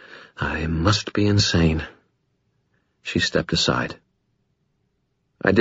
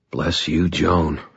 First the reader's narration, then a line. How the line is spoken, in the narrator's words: I muttered